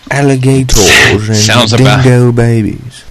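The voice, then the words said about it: Put-on Australian accent. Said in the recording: “How about Australian, mate?”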